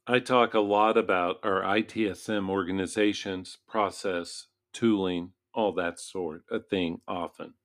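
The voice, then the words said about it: Voice sounds unwell. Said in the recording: “I apologize for my voice. My family's been ill. I'm trying not to be.”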